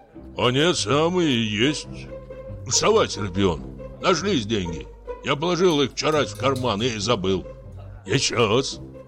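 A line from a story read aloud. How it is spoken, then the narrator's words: Muttered. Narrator (Russian): бормочет Фортунатов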